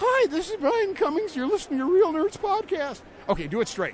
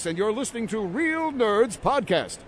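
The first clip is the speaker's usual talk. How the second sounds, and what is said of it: Announcer voice. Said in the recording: “this is my announcer voice”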